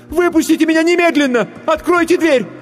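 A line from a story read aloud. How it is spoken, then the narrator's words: Choked-up scream. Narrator (Russian): Она сглотнула тяжелый ком в горле и закричала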